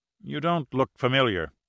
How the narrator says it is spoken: said the guard uneasily

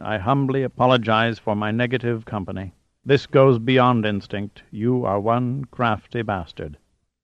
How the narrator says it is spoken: said solemnly

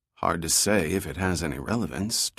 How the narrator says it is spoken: Dirk replied quietly

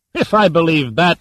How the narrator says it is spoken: snorted

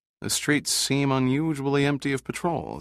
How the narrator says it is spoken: he murmured

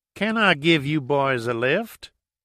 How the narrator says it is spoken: she said in a deep southern drawl

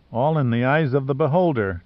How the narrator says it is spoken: Giordino murmured

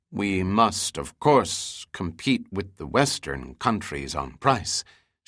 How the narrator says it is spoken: Shinja said softly

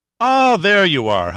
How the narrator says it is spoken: Honeywell said loudly

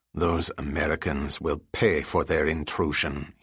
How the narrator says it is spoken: said in a guttural tone

